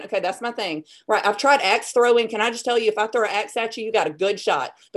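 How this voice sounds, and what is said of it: Speaks with a noticeable regional accent. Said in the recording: “hear the accent.”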